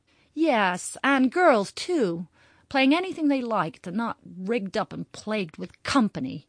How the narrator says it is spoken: cried Kitty with sudden interest

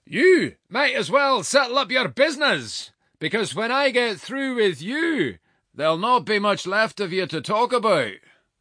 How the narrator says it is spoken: called out

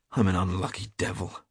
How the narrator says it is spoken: growled Hughie

